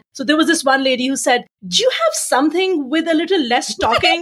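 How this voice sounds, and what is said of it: Strong non-native English accent. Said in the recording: “your accent makes it very hard for me to understand ... accent is an ongoing issue”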